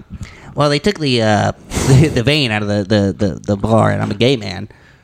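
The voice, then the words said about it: Imitates another person's voice. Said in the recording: “I could do a mean Ben Shapiro.”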